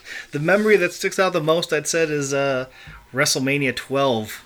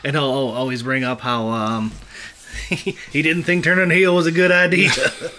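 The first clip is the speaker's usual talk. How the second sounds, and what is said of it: Bad Steve Austin impression. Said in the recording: “That was a bad Austin impression.”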